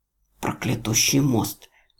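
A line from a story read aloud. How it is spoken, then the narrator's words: Sleepy mumble. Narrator (Russian): пробормотал сквозь дрему рядовой Трайк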